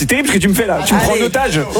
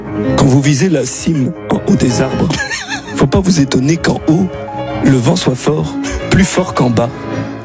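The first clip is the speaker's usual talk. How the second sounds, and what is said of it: Imitates another person's voice. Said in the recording (French): “L'imitation de Nicolas. Attends, Sarkozy par ... Bah, c'est très mal fait.”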